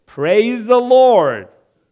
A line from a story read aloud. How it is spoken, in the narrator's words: shout